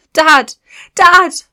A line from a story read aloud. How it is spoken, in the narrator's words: she yelled